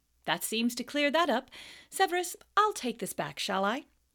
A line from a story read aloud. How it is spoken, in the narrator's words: said Lupin, clapping his hands together and looking around cheerfully